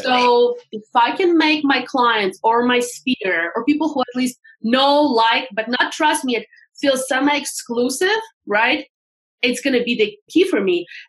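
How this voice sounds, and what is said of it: Noticeable foreign accent. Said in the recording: “You probably can hear my accent. ... I sound like I'm from the calling center.”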